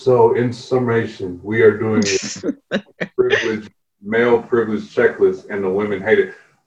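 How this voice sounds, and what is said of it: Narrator voice. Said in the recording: “I love switching to my narrator voice.”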